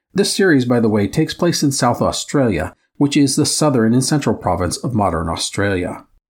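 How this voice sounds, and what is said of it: Midwest American accent. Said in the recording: “my Midwest American accent”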